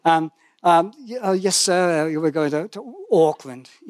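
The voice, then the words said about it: Attempted New Zealand accent, poorly done. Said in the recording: “Kiwi accent, so forgive me, 35 years in New Zealand, still can't do a Kiwi accent.”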